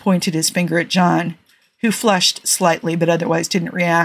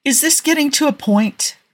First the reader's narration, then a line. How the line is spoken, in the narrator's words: Rodney snapped, not interested